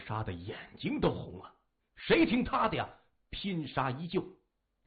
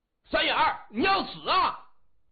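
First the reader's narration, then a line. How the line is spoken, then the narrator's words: Loud shout. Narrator (Chinese): 有人大喊一声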